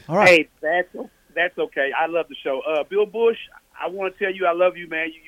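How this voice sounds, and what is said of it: Southern country Tennessee accent. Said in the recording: “my country accent from Tennessee”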